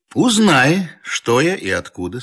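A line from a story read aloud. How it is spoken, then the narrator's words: Plain. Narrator (Russian): спросил Штольц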